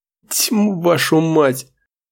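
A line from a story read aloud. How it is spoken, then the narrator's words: Hissed through teeth. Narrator (Russian): Воздух шумом вышел сквозь зубы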